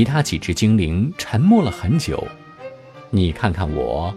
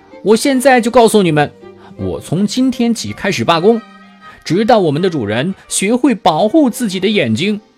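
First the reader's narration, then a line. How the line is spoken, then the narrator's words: Sudden loud shout. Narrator (Chinese): 那只刚才说要罢工的蓝色精灵突然又大声地叫起来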